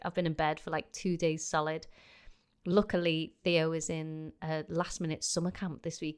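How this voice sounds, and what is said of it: Congested, sick-sounding voice. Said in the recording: “I apologise if you can hear in my voice, I have had the worst, most stinking cold this week.”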